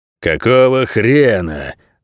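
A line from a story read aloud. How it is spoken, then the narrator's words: Growling. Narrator (Russian): прорычал лес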